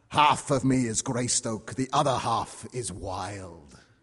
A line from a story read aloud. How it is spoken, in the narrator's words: he growls back